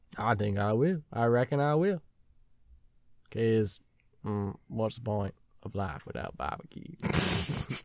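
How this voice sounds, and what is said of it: Put-on Texan accent. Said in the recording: “You go back to your Texan. ... Now I sound like Forrest Gump. ... That's tough to keep a solid accent going for that long.”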